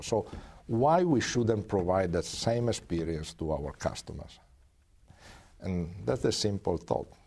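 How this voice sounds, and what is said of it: European accent speaking English. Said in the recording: “as a European, and I don't think there are doubts with my accent”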